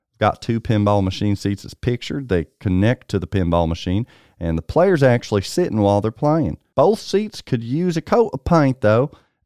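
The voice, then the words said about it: Kentucky accent. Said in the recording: “He says in a true Kentucky accent”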